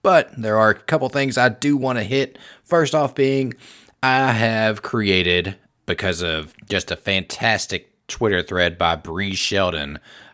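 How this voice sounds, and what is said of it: Weak voice from a cold. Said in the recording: “I got a cold coming on, so my voice isn't that strong”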